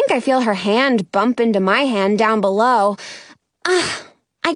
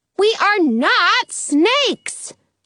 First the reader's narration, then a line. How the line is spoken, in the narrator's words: I yell